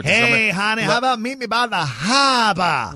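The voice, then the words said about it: Exaggerated Boston accent. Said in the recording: “you say it enough, so it's you must love it because you don't stop. ... the Boston accent”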